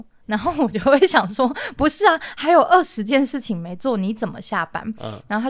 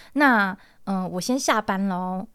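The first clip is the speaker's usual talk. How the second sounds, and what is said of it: Imitating a coworker's soft, gentle voice. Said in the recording (Chinese): “学他说话 ... 可能我学的不够精准，他声音更温柔一点”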